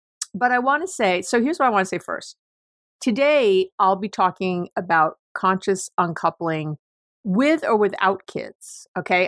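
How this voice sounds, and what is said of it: Slightly hoarse, throaty voice. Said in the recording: “I have a little frog in my throat”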